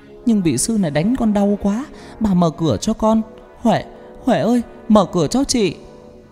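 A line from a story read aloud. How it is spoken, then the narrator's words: Wailing sobbing. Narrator (Vietnamese): Con Hoa gào khóc thảm thiết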